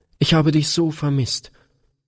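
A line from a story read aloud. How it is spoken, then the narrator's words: Sobbing outburst. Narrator (German): stieß Gretchen schluchzend hervor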